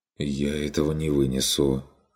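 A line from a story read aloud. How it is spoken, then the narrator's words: Muttered. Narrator (Russian): пробормотал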